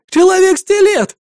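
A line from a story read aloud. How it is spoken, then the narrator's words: Child's wailing scream. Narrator (Russian): завопил мальчонка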